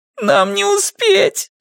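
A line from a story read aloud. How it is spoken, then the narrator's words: Strained, tearful. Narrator (Russian): сквозь слезы выдавил Скотт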